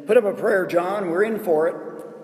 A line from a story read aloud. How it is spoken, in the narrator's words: Terrified, the one shouted